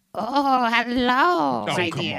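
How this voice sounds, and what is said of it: Sweet old-lady voice, not scary. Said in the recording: “do your scary voice... Try to be scary... I didn't say try to be Betty White”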